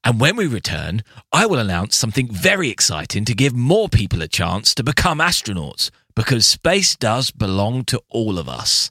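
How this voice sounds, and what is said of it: Richard Branson impression. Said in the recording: “my best Branson impersonation”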